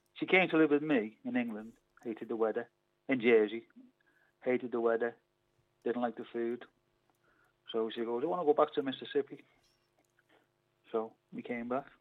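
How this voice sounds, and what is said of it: English Liverpool accent. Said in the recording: “you haven't lost your accent at all? ... You have not lost it in the slightest. ... they don't talk like you in Mississippi.”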